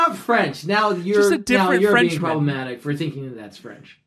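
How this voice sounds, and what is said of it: Usual voice. Nothing is said of it.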